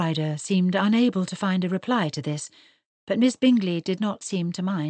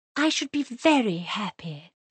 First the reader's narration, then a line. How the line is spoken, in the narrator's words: she went on in a confiding tone